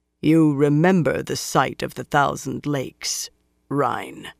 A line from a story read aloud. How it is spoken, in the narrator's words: Lan said coldly